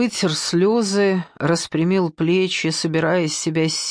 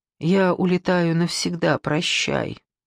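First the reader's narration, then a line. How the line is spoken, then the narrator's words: Dove cooing. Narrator (Russian): Голубка проворковала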